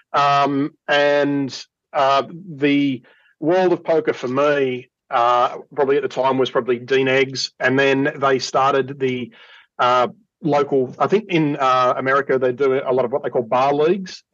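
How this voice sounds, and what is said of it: Australian accent. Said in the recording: “Everyone hopefully by now has picked up on the accent ... down here in Australia”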